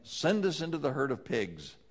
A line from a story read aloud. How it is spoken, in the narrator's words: the demons begged